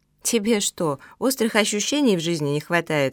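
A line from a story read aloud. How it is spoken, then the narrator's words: Laughing. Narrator (Russian): рассмеялась Лена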